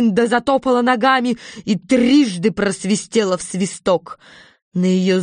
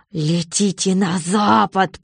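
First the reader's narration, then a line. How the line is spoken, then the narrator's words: Growled. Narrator (Russian): прорычала волшебница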